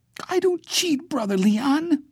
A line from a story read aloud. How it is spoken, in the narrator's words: Bailey said, his voice a kind of squeak